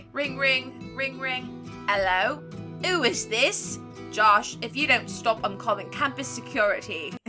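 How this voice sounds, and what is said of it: Put-on British accent. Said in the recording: “I can't not do a British accent... Like my British accent.”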